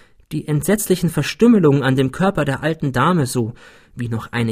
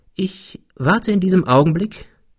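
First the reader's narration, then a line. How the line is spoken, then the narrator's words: Continued calmly. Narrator (German): fuhr er ruhig fort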